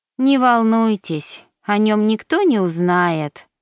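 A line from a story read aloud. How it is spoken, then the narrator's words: Sighing. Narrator (Russian): вздохнула Мишель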